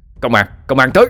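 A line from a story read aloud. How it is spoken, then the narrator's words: Distant shout. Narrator (Vietnamese): có tiếng hét lên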